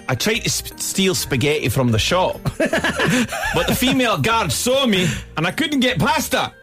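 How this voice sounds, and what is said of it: Put-on Scottish accent. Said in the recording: “I think I might do it in an English accent. Okay. Maybe a Scottish accent.”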